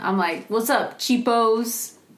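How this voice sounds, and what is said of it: Slight put-on accent. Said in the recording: “You're, like, bridging on an accent.”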